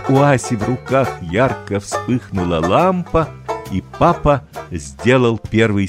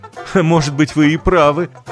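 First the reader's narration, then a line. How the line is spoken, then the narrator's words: Laughing. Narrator (Russian): засмеялся папа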